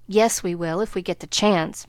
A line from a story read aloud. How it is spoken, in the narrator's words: muttered Laurie rebelliously